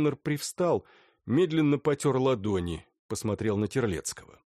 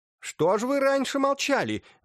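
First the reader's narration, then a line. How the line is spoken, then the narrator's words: Exclamation. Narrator (Russian): воскликнула Суховская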